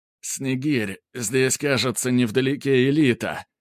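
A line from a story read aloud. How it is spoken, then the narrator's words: Groaning. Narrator (Russian): простонал Грубер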